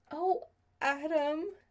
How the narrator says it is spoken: she said, more than a little choked up

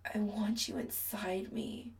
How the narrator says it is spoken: Chris groans

